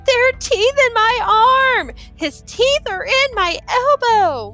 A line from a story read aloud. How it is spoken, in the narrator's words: Danny Novella was screaming